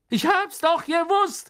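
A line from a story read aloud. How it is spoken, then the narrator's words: Gloating shout. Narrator (German): rief Stan schadenfroh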